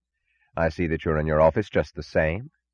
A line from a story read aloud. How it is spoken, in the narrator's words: he said